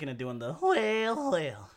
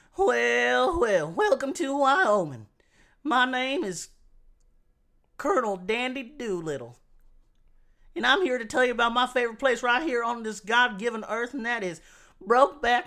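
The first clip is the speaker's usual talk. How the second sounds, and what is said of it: Exaggerated old prospector accent. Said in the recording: “an aggressive accent ... old prospectors”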